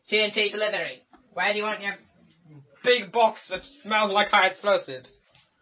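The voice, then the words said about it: Put-on comedic accent. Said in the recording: “I've got my accents coming on now, don't I?”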